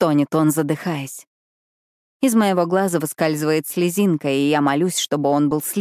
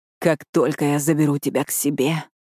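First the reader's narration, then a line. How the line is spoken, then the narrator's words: Hoarse rasp. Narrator (Russian): хрипит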